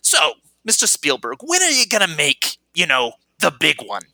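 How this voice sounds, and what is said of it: Good imitation of a comedy character. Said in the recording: “that's a really good imitation”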